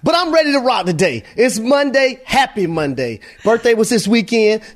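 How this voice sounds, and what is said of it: Excited, energetic voice. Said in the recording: “I'm excited right now, Shay. You can tell in my voice.”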